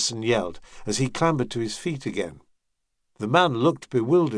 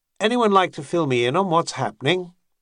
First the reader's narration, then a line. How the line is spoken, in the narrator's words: Thorn asked smoothly